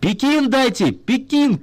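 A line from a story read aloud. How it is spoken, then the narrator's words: Shouting into phone. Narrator (Russian): кричал генеральный секретарь в белый правительственный телефон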